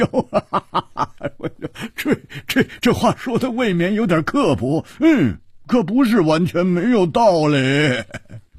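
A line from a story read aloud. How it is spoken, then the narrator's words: Laughing heartily. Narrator (Chinese): 蝴蝶花大笑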